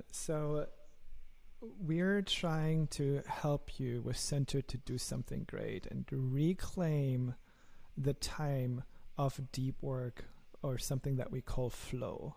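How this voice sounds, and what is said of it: German accent. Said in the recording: “my lovely German accent”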